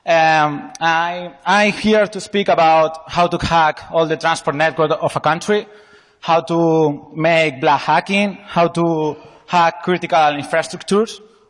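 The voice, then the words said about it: Spanish accent in English. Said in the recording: “I'm from Spain. My accent is not the best.”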